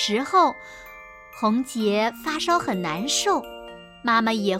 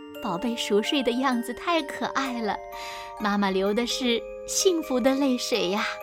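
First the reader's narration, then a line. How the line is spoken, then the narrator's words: Tearful, smiling. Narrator (Chinese): 妈妈擦擦眼泪，笑着说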